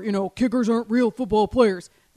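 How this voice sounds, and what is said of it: Macho football guy voice. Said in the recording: “my macho football guy impression”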